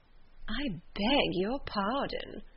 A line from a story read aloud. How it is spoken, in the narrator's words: replied Miss Bingley, with a sneer